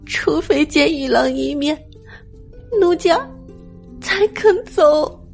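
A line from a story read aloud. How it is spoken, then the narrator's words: Softly weeping. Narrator (Chinese): 韦燕嘤嘤哭泣道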